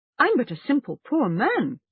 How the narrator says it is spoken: he said

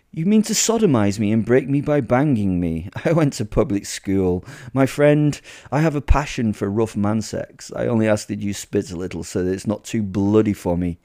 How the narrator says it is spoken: laughed

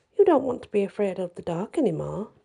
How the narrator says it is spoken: Diana said coolly

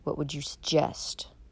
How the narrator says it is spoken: he asked coldly

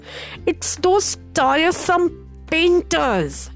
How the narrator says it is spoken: cried

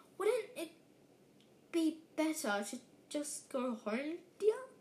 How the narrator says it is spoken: Aunt Petunia suggested timidly

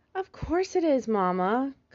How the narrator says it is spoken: Cosmo cried

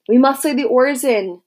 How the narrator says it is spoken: someone shouted

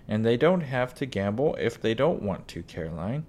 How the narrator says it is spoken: Pa said

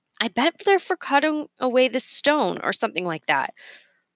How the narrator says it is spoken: Leo said

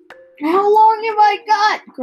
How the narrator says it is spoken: cried Mrs

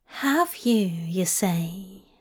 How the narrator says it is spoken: he whispered

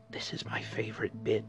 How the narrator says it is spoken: whispered the little dog

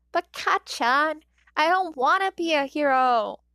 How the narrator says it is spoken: Izuku whines

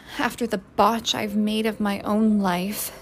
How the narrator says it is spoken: said Francie bitterly

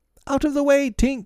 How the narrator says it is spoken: he shouted

